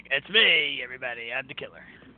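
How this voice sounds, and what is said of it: Raspy put-on villain voice. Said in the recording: “my raspy voice”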